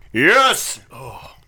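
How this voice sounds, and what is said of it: Sports announcer voice. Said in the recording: “That's my sports announcer voice.”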